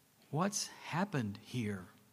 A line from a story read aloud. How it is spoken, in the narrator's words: asked Eli